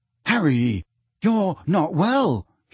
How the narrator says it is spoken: he said shakily

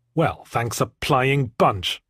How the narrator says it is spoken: I muttered, bitterly

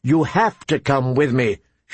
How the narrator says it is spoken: she told her sister firmly

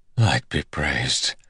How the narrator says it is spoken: he whispered

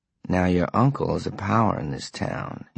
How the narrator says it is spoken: he said softly

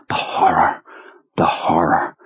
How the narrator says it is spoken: in just the right Marlon Brando whisper

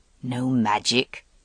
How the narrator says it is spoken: said Morgaine in her rich, low voice

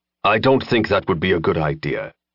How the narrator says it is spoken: Jensen said, his voice going grim

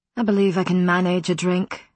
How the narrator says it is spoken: Matthew said in a withering tone

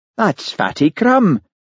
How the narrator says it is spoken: exclaimed Charlie

